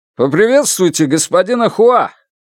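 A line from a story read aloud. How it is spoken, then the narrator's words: Shout. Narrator (Russian): крикнул Янь Ли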